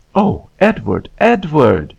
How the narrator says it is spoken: exclaimed

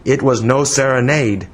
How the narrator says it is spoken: he replied curtly

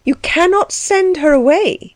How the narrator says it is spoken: cried together

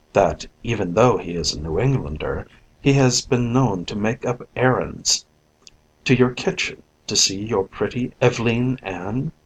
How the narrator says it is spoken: murmured my cousin under his breath

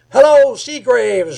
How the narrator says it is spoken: yelled Rob from the door

